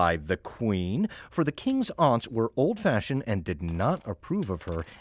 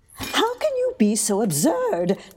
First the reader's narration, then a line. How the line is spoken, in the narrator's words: cried the queen